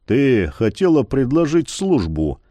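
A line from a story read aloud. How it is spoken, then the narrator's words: Muffled pronouncement. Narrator (Russian): Глухо изрек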